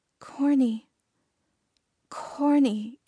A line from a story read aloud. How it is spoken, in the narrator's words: came feebly